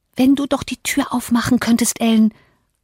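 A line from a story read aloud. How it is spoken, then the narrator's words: Fearful reply. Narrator (German): antwortete ängstlich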